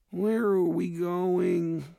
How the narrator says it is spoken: Mallory whined

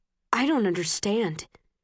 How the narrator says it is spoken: he says

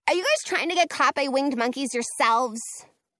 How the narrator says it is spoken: Frankie snaps

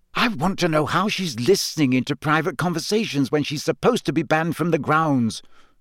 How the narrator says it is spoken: said Hermione angrily

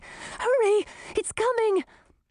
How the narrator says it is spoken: it panted

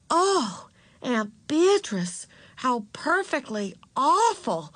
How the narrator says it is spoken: exclaimed Beezus with a touch of admiration in her voice

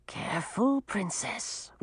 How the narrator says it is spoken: whispered Sir Jarvis

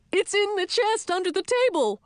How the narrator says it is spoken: The old man, gasped once, and blurted out

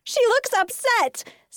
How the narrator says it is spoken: shrieked

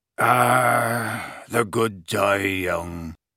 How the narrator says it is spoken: muttered, slumping low onto the table, a little cross-eyed

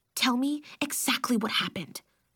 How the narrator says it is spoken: I whispered

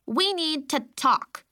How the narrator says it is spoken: she barked at me in her cute little voice

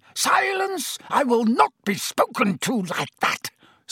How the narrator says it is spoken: Snape shrieked, looking madder than ever

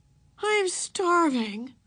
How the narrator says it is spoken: wailed Beezus

